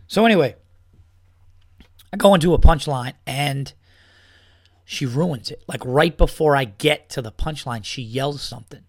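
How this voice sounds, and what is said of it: Hoarse, strained, worn-out voice. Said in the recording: “I feel like I got a fucking choke fest here. I'm sipping water. Excuse me, I'm sorry. ... I lost my voice yelling at this bitch.”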